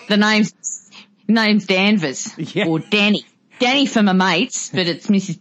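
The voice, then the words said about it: Put-on Australian accent. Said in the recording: “Australians actually didn't talk like that back in the 40s”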